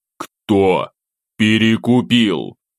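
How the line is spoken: Growled again. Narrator (Russian): Второй раз рыкнул я

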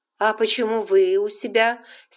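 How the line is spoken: Angry snap. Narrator (Russian): сердито огрызнулась Скарлетт

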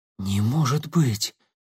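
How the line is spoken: Shocked breathless. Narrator (Russian): потрясенно выдохнул он

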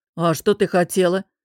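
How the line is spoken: Grimacing boss's grumbling interruption. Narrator (Russian): Скривившись, перебил босс и, хмыкнув, проурчал

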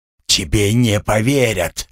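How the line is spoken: Hoarse, struggling rasp. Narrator (Russian): вырываясь, хрипел

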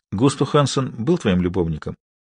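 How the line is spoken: Quiet. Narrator (Russian): Харри произнес это тихо

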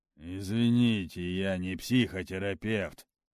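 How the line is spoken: Angry. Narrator (Russian): зло сказал дознаватель

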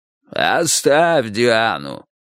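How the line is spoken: Watchman's hoarse rasp. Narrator (Russian): прохрипел сторож

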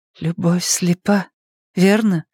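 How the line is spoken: Sad smiling remark. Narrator (Russian): заметила и грустно улыбнулась

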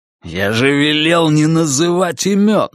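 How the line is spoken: Growl. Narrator (Russian): рыкнул перстень

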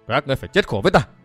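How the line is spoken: Loud shout. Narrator (Vietnamese): Lục Vũ Lệnh Chủ miệng quát lớn

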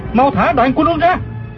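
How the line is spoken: Shout mid-fight. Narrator (Vietnamese): Du Thản Chi la lên

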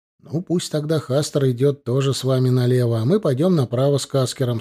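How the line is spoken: Plain. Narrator (Russian): сказал он

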